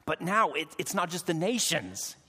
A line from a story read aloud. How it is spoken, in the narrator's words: he said through clenched teeth